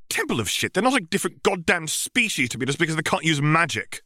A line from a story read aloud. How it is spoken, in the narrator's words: Hermione snapped